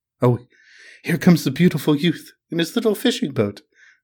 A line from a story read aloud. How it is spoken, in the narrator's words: cried the nymph